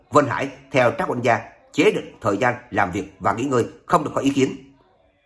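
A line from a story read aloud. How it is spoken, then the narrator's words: Old man shouting. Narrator (Vietnamese): Lão Vân Thường nghe vậy lập tức hét lớn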